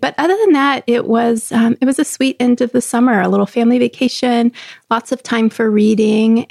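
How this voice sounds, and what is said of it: Scratchy voice, catch in throat. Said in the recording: “I still don't feel 100%, and I, I feel it in my voice ... there's a catch in my throat and there's, you know, that tickle that says I want to cough ... my voice is a little bit scratchy”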